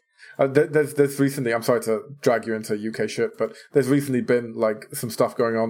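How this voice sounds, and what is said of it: British accent. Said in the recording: “he has a British accent.”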